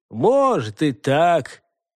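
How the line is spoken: Gloomy grunt. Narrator (Russian): мрачно хмыкнул Рауль

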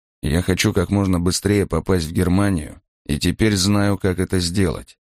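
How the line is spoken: Quiet speech into ear. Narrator (Russian): негромко говорил он на ухо Крёнеру

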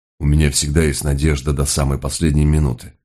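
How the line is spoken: Grumbling. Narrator (Russian): проворчал Мигре

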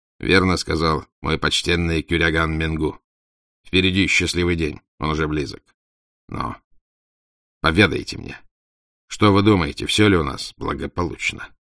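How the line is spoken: Clipped, abrupt. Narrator (Russian): Он начал отрывисто

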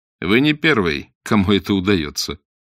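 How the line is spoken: Mocking. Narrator (Russian): насмешливо ответил Блад

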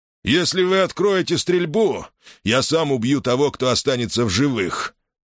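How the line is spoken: Furious roar. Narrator (Russian): яростно проревел он

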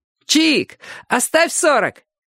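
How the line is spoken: Joking shout. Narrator (Russian): крикнул кто-то в шутку

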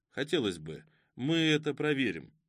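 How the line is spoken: Calm. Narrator (Russian): спокойно сказал Ребров

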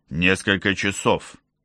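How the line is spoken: Plain. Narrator (Russian): сказал Артур

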